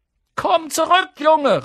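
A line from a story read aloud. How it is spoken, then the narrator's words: Calling out. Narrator (German): rief sie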